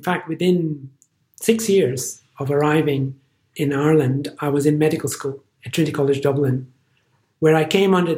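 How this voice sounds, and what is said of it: Funny, distinctive accent. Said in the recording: “this funny accent that you hear”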